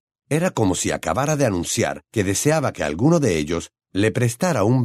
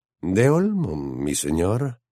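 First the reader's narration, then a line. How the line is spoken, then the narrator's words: Whispered. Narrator (Spanish): susurró Malfoy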